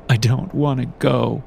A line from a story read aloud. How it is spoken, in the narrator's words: I sobbed